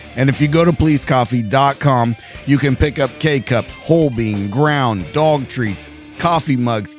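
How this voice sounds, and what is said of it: Strained, worn-out voice. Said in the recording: “my voice is finally giving out”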